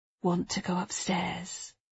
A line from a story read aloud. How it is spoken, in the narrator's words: Matthew said, leaning forward to whisper in his ear